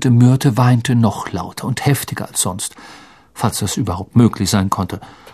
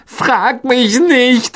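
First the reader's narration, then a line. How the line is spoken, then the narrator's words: Called out. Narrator (German): rief Myrte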